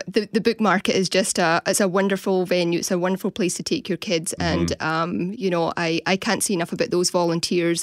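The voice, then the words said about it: Scottish accent. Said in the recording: “I'm from Scotland. ... for us, it sounds like you kept your accent.”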